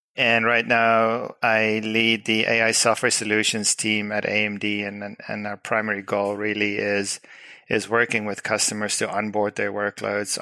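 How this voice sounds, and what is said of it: South African English accent. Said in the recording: “I'm originally from South Africa, so that explains the weird accent.”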